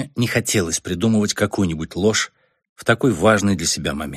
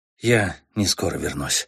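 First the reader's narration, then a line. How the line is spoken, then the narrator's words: Quiet but clear. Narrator (Russian): сказал я тихо, но внятно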